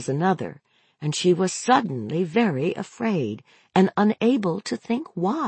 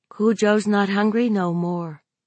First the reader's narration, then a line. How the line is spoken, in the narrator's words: Brett said, the words riding out on that sigh